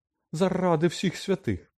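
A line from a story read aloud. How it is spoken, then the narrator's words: Hysterical exclamation. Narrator (Ukrainian): історично вигукнула мадам Помфрі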